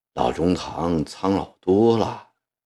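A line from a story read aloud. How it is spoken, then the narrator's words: Soft voice. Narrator (Chinese): 一心…轻声地说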